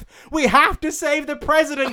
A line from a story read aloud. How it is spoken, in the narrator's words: she shouted